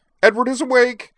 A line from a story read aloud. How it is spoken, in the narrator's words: cried Edward, jolting upright